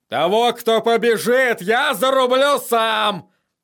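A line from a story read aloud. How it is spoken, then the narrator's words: Roared. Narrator (Russian): проревел он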